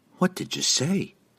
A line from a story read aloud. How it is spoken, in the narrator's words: Kateri whispered